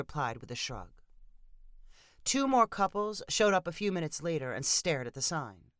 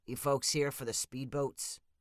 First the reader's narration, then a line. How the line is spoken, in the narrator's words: asked the man in a gravelly voice